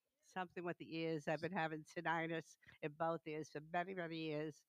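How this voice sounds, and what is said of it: Italian-American mafia-style accent. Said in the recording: “I love your accent, by the way. I wish I had an accent like that. I could start a mafia ministry”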